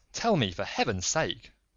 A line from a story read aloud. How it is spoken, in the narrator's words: I exclaimed